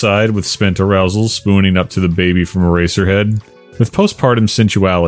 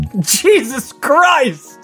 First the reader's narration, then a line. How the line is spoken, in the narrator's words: Simba laughed